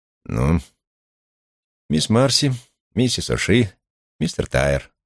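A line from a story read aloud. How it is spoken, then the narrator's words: Gruff mutter. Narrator (Russian): буркнул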